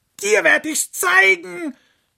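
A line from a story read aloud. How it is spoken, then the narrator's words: Angry shouting. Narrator (German): schrie der Fuchs die Sonne an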